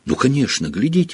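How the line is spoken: Exclaiming. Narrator (Russian): воскликнул он

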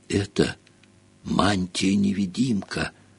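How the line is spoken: Awed, rapturous whisper. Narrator (Russian): прошептал Рон с благоговейным восторгом

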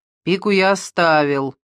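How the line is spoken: Dry. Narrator (Russian): сухо сказал Мазукта

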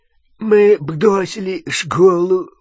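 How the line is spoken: Nasal voice. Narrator (Russian): прогнусавил Рон

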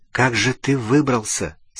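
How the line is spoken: Whispered question. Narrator (Russian): спросил Гарри и нисколько не удивился, обнаружив, что задал этот вопрос шепотом

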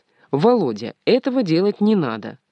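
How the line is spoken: Stern mother. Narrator (Russian): мама строго говорит

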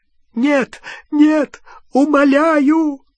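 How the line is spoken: Choking sobs, pleading. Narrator (Russian): захлебывался рыданиями Ксенофилиус

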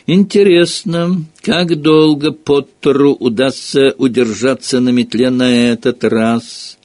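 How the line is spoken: Loud taunting question. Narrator (Russian): громко спросил Малфой, зная, что Рон, Гермиона и Невилл прекрасно его слышат

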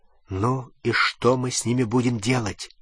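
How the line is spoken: Quiet whisper, growing softer. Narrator (Russian): тихо прошептал Рон, а затем еще тише

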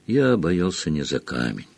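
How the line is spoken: Gentle correction. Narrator (Russian): мягко поправил его Дамблдор

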